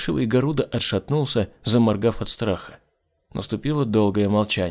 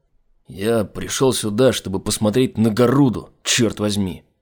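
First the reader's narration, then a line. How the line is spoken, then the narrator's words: Grumbling. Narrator (Russian): проворчал Айзек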